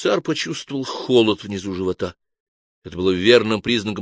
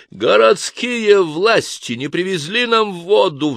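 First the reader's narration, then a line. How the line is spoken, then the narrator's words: Roar. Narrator (Russian): взревел инквизитор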